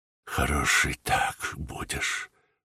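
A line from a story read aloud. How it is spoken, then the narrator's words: Whispered. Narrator (Russian): прошептала Катерина Львовна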